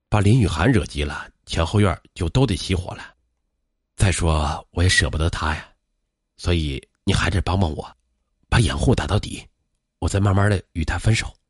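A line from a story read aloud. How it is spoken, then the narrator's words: Passionate sigh. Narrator (Chinese): 薛开阳却按耐不住对林雨涵的激情，他叹道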